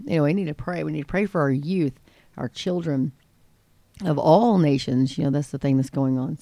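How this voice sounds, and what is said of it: Hoarse, weakened voice. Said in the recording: “My voice is still not back to normal, but like I say, at least I am not squawking and squeaking anymore, and at least I have somewhat of a voice”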